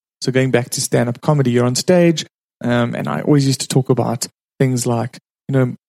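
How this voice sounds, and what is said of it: South African accent. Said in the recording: “my name's ... and I'm from South Africa. That's why I have this strange accent.”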